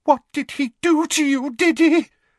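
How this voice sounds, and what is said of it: Quavering, trembling voice. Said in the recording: “in a quavering voice”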